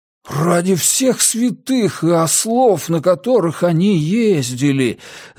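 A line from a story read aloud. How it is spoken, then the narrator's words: Spellbound breathless. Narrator (Russian): зачарованно выдохнул Джеспер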